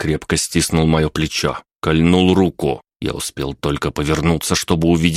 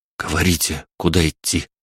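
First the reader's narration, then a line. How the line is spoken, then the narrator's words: Eager fearful whisper. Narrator (Russian): с готовностью прошептал я, боясь, что кто-то еще может нас услышать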